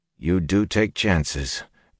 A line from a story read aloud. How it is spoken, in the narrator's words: Perrin breathed